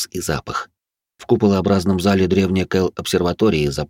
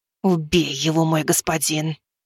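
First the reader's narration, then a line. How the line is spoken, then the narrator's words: Fearful disgusted hiss. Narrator (Russian): Прошипела Азимандия со страхом и отвращением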